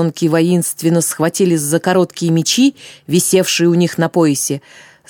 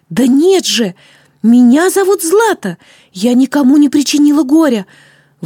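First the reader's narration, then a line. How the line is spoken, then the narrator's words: Exclaimed. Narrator (Russian): воскликнула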